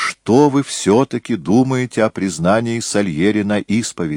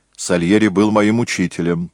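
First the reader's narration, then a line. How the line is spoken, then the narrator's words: Angry. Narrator (Russian): сердито проговорил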